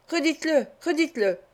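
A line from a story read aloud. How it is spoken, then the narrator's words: Furious exclamation. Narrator (French): s'écria Fagin écumant de rage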